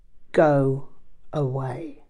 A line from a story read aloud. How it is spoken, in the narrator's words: Rinpoche looked furious and said in an icy voice